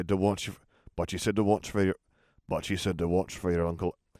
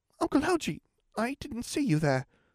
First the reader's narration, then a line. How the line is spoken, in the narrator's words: the boy said timidly